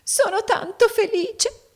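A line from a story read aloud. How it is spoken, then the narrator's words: Sobbing. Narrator (Italian): singhiozzò la piccola donna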